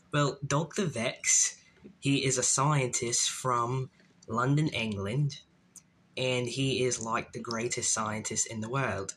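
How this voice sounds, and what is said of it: Put-on British accent. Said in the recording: “talk in the accent that you created for Dr. Vex ... in that British accent”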